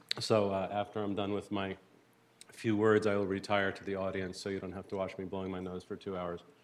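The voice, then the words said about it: Hoarse, croaky voice. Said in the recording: “I don't usually sound so much like a frog, but I have a cold.”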